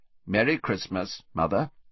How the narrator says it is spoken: Then Percy said, rather stiffly

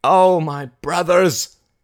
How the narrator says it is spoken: cried Mary, her voice agonized

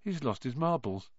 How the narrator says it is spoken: Ron muttered in Harry's ear

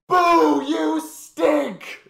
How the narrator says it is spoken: one guy yelling

